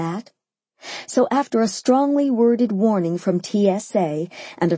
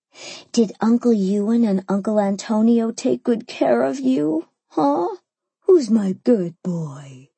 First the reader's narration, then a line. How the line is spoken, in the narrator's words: I cooed